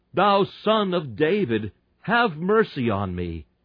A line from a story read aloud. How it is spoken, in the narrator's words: He cried the more a great deal, not only cried the more, but he cries a great deal more